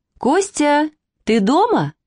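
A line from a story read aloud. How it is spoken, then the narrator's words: Joyful female voice. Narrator (Russian): радостно сказал женский голос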